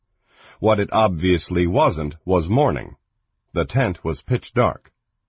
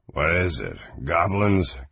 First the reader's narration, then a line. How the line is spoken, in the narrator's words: Kang mumbled